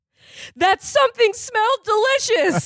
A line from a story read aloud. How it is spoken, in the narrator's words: I screamed